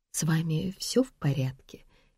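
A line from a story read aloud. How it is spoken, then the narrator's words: Quiet question. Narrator (Russian): тихо спросила Вероника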